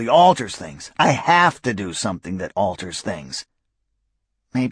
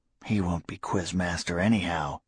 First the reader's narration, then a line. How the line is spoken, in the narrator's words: Rita said quietly